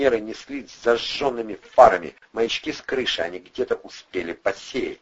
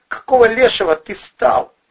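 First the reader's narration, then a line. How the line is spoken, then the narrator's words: Yelling. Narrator (Russian): заорал Андрей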